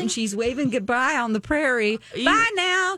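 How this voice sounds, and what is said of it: Put-on hillbilly Southern accent. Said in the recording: “That's more like the Beverly Hillbillies, that accent I just did.”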